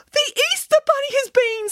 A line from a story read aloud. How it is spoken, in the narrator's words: squealed Boris excitedly